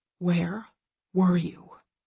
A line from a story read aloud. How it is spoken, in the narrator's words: He whispers, his tone arctic